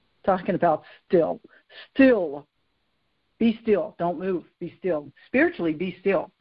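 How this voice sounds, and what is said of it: Mild Southern US accent. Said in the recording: “I say it with a southern accent ... I've overcome a lot of it, but when I'm just talking as myself, a lot of times my accent will come out”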